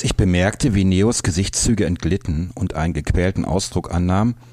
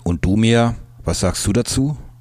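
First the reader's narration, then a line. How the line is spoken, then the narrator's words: Plain. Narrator (German): fragte Torge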